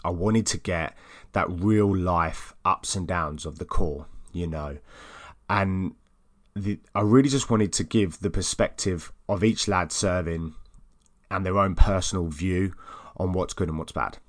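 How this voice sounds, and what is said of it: Essex English accent. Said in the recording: “my lovely Essex accent.”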